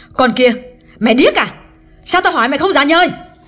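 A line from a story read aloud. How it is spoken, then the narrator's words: Loud scolding. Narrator (Vietnamese): Hương càng lớn tiếng nạt Liễu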